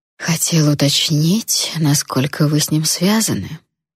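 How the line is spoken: Tender whisper. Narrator (Russian): ласково прошептал Эйден

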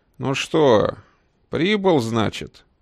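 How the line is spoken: Booming familiar TV voice. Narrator (Russian): Знакомым телевизионным голосом прогудел хозяин кабинета

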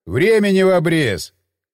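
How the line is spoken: Shouting over wind. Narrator (Russian): крикнул я, перекрикивая ветер

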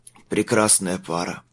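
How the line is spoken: Hoarse. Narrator (Russian): хрипло выговорил Майлз

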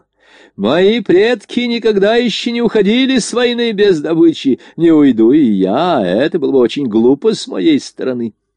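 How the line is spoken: Breathless ecstatic old man's shout. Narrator (Russian): Задыхаясь от восторга, старик кричал

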